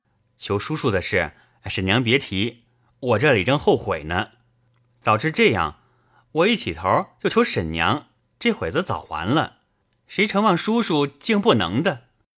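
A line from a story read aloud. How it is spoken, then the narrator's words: Laughing. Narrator (Chinese): 凤姐笑道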